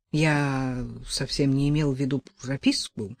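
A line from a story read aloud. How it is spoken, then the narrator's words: Embarrassed mumble. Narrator (Russian): пробормотал Степан, чувствуя себя идиотом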